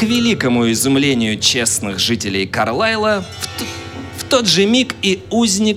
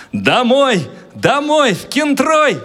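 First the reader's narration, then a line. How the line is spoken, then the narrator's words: Bold shout. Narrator (Russian): он смело крикнул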